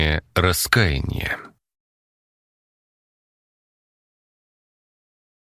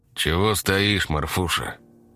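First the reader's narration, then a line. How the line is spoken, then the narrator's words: Tired, slightly worried. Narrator (Russian): спросил он, голос звучал устало, но в нем проскользнула нотка беспокойства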